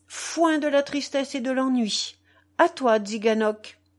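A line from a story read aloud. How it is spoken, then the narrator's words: Bold exclamation. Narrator (French): s'exclamait-il d'une voix crâne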